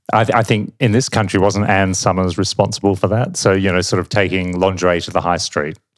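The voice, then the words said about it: Australian accent. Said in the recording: “you probably gathered from my accent that I'm not from here ... in Australia”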